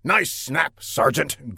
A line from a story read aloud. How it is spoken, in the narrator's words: grunted the general